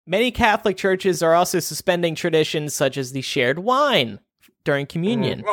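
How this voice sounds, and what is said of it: Usual voice. Nothing is said of it.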